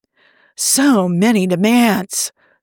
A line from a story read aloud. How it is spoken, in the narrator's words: Tony sighs